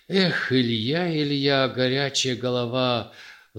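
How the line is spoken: Sighing. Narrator (Russian): вздохнул он

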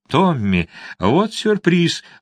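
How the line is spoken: Exclaimed. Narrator (Russian): воскликнула она

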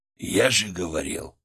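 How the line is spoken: Whisper into ear. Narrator (Russian): прошептал мне на ухо

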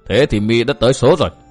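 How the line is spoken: Loud laughter. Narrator (Vietnamese): Độc Trung Chi Độc cười lớn

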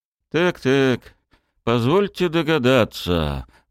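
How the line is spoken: Grumbled. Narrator (Russian): проворчал сидящий за столом товарищ

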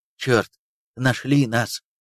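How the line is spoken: Whisper. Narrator (Russian): прошептал Лещенко

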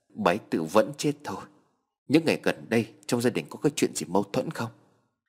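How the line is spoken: Trembling. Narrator (Vietnamese): Anh trai cô cụp run rẩy

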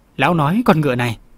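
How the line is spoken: Old man, smiling. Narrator (Vietnamese): Lý lão già mỉm cười

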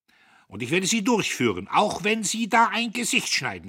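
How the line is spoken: Shouting. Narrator (German): schrie er

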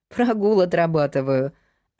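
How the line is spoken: Laughing. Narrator (Russian): засмеялась

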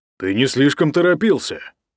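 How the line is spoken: Grumbling. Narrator (Russian): проворчал Ник

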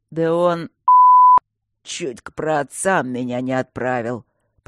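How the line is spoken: Hoarse wheeze, huge man. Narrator (Russian): просипел гороподобный, разминая горло

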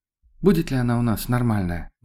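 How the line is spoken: Sad, smiling. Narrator (Russian): Грустно улыбнулась Тоня

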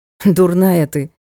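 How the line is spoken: Snorting. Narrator (Russian): хмыкнул Ник

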